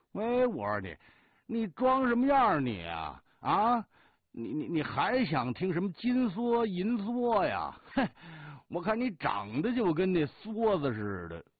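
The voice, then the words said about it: Beijing-accented Mandarin. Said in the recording (Chinese): “你怎么说话口音都改了京腔了？啊？”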